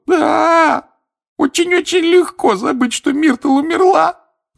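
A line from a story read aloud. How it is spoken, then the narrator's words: Sobbing. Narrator (Russian): рыдала плакса Миртл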